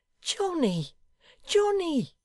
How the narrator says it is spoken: said Solomon, and the simple-hearted fellow cried outright

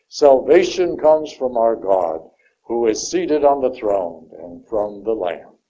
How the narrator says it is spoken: they cried out in a loud voice

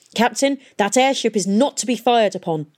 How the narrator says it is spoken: he shouted

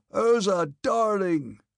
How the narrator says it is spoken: wailed in a voice unlike his own

